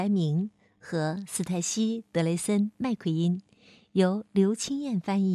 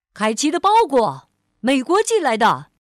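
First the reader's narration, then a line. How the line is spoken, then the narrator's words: Loud shout. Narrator (Chinese): 他大喊着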